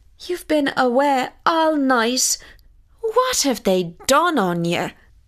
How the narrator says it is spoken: cried his mother

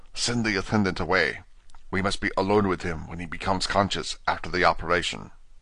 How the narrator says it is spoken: he whispered to me

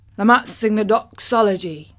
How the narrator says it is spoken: he suggested in his driest grunt

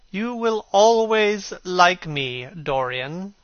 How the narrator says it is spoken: said Lord Henry

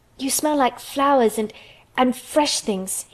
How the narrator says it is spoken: he cried out quite joyously

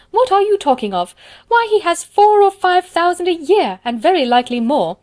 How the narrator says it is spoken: cried his wife

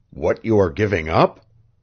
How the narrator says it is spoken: asked Devant hoarsely

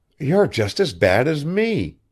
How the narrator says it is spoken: cried Maud suddenly

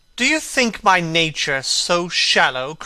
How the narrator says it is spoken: cried Dorian Gray angrily

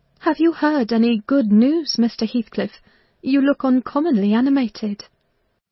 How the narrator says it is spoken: I exclaimed

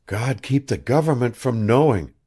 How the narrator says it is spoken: breathed the girl

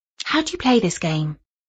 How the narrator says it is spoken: asked Jenny a little timidly

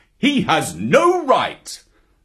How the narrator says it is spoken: Father Wolf began angrily

